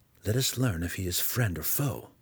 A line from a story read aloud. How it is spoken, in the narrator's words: Drizzt whispered